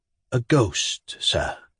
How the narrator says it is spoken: said Pavel Pavlovich in a low tone, after a few moments of silence

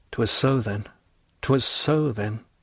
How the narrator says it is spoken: murmured the abbé

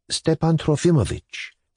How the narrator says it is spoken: Sofia Matveyevna asked timidly

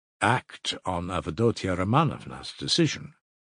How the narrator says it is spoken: Razumihin answered calmly at once

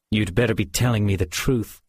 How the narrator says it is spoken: Georg snarled

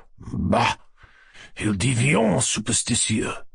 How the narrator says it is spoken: muttering in a whisper

